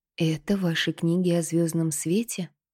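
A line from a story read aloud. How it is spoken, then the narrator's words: Weak small voice. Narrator (Russian): слабым голоском спросила Кинта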